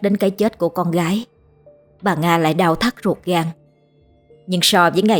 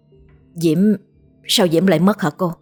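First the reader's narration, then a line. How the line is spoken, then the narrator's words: Stammering. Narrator (Vietnamese): Anh lắp bắp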